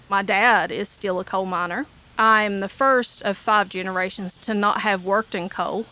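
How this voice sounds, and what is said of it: Appalachian Eastern Kentucky accent. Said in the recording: “I am an Appalachian or Eastern Kentuckian ... my accent ... I'm a hillbilly”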